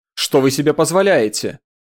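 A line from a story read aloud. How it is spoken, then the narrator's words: Shout. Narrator (Russian): крикнула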